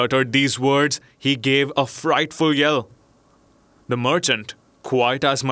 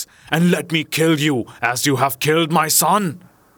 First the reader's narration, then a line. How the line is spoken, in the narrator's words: he cried in a terrible voice